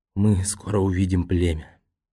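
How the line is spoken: Faint, moved whisper. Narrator (Russian): Нао, взволнованный воспоминаниями, чуть слышно прошептал

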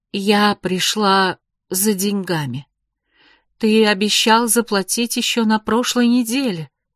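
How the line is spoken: Plain. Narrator (Russian): ответила Магда

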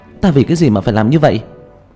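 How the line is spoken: Agitated, vehement shout. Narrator (Vietnamese): Vương Bình phản ứng rất kịch liệt, kích động hét lên

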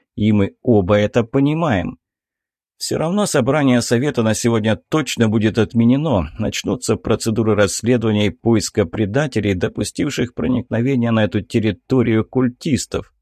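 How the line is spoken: Commander's snort. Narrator (Russian): хмыкнул командир

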